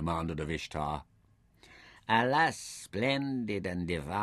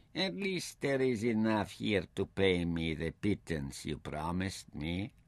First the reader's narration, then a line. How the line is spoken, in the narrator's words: Ishtar suggested smoothly